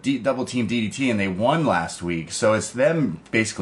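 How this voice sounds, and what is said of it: Usual voice. Nothing is said of it.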